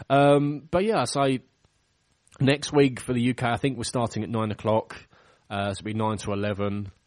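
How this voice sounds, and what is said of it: Strained, failing voice. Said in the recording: “excuse me, sorry, my voice is going”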